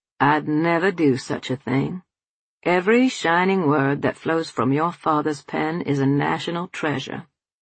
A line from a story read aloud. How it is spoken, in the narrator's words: He replied with an indulgent chuckle